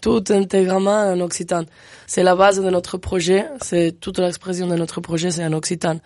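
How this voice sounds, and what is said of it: Fluent French with slight foreign accent. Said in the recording (French): “tu parles très bien français avec ce charmant petit accent.”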